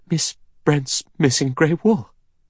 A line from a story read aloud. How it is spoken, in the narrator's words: She said, and her voice shook with horror